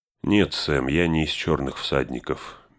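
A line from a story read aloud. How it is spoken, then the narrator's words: Soft. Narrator (Russian): мягко сказал он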